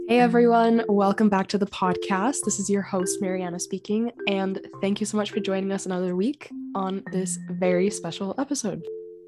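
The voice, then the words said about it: Raspy, hoarse voice. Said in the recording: “you might hear that my voice sounds a little bit raspy ... I was one of the less fortunate individuals to catch COVID”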